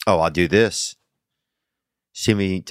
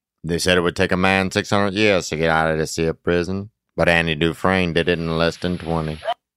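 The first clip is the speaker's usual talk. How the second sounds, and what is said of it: Imitates another person's voice. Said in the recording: “tell me who this is... a little weak today... that's Morgan Freeman”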